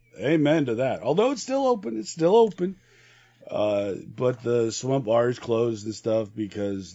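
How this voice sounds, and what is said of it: Hoarse, rough voice. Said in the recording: “my voice is a little sketchy today... laryngitis”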